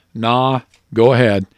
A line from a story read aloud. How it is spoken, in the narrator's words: The older cowboy in his best cowboy manner says